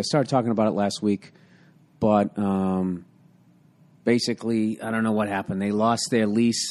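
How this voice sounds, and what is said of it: Slightly damaged, recovering voice. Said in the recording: “my voice is much better. It's a little fucked up, but I'm doing much better... a few more coughs here”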